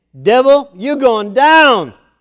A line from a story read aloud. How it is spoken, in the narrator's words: He was loudly saying